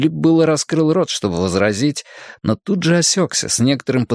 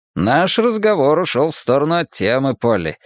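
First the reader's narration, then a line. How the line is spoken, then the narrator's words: Light, casual, uneasy. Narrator (Russian): Филипп говорил легким, непринужденным тоном, хотя ему сделалось не по себе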